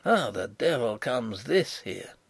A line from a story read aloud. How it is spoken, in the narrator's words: hear him mutter